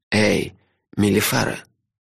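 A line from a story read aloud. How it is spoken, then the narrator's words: Quiet but insistent call. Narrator (Russian): Негромко, но настойчиво позвал он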